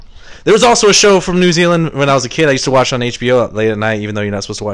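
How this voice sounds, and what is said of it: Usual voice. Nothing is said of it.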